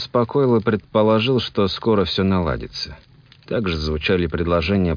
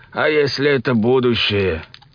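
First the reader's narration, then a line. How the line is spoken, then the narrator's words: Old voice straining to shout. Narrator (Russian): Кто-то старческим голосом попытался выкрикнуть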